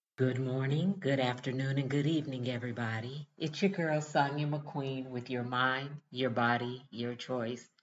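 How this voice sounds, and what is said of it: Unusually deep bass female voice. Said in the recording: “my voice is a little deep to be a woman ... right now I'm a pure bass ... my voice is as deep as my brother's ... this deep bass in my voice”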